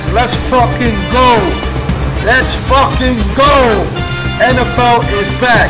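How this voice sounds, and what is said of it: Excited screaming. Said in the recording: “I'm screaming because it's back”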